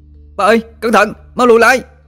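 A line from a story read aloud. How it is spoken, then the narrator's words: Panicked shout. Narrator (Vietnamese): nó hốt hoảng la lên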